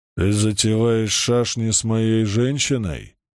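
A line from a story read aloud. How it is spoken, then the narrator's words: Grumbling male voice. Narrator (Russian): пробурчал он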